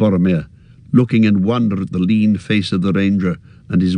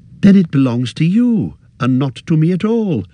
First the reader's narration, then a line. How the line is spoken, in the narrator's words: cried Frodo in amazement